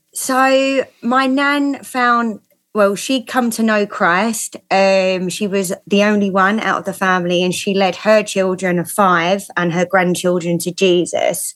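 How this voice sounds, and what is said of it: Southeast London accent. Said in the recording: “So where's that accent? That London? ... Yeah, I'm a Southeast Londoner.”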